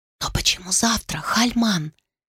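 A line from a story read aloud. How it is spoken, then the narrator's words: Whisper. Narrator (Russian): прошептала она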